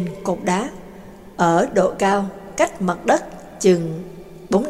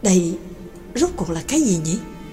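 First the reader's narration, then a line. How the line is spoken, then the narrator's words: Pensive muttering. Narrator (Vietnamese): y trầm ngâm lẩm bẩm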